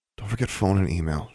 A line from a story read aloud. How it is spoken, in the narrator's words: she murmured